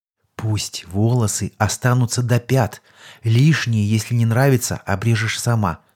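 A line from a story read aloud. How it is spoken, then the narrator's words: Whispered reply. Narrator (Russian): тоже шепотом ответил я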